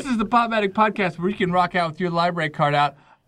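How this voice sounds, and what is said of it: Exaggerated radio announcer voice. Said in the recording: “doing a stupid radio voice”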